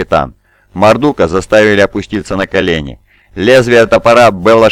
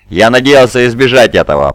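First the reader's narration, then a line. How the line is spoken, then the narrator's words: Furious. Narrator (Russian): произнес Мардук, подняв на своего назначенного наставника яростный взгляд и злобно прищурив глаза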